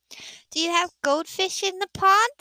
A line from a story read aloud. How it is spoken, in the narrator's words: she asked excitedly